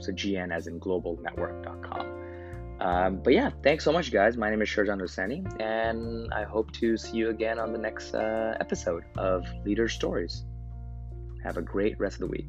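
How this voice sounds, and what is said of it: Raspy, sore-throated voice. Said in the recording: “I have a sore throat as well ... we have cool, raspy voices ... radio voice today”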